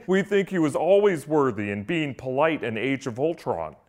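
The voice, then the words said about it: Kevin Feige impression. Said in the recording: “I'm working on my Feige impression.”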